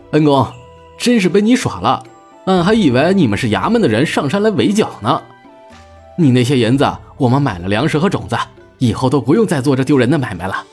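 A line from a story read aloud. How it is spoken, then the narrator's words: Laughing. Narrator (Chinese): 单文琪笑着说道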